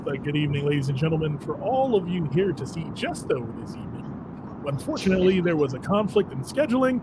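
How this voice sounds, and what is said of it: Announcer voice. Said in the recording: “do my announcer voice”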